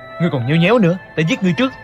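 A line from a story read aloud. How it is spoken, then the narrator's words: Impatient shout. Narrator (Vietnamese): nghe Hoa Thiết Cán không ngớt miệng khuyên nhủ thúc giục, sốt cả ruột quát lên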